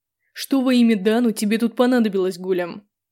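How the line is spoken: Menacing bark. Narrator (Russian): Грозно рявкнул он

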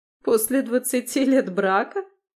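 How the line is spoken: Mocking laugh. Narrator (Russian): Катя рассмеялась, и этот смех прозвучал, как издевка

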